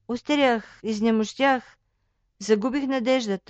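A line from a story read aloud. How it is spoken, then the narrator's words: Sad sigh. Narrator (Bulgarian): тъжно въздъхнал той накрая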